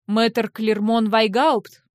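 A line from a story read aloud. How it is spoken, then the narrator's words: Asked menacingly. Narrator (Russian): грозно осведомился Айронд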